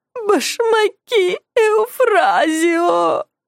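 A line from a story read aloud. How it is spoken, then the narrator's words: Sobbing woman. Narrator (Russian): рыдала она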